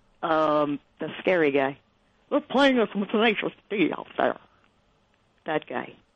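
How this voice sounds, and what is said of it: Marv Albert impression. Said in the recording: “Was that your Bill Walton impression? ... No, I forget his name. ... Marv Albert.”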